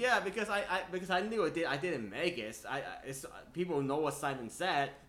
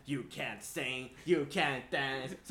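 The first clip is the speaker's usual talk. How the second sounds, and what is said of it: Impression of Simon Cowell. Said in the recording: “your Simon impression”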